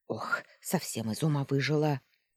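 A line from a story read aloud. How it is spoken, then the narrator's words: Grumbling woman. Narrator (Russian): заворчала женщина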